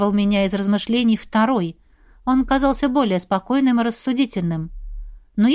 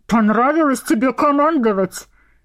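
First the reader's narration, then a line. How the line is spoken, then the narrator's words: Growled. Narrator (Russian): зарычал один из напарников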